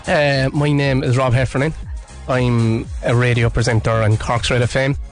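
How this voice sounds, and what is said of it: Strong Cork Irish accent. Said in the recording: “We have the Corkest man in Cork on the airwaves ... my accent's gone very flat, neutral now ... What are you laughing at?”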